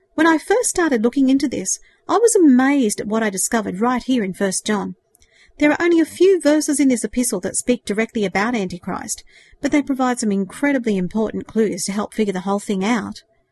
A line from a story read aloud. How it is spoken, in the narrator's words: he continued earnestly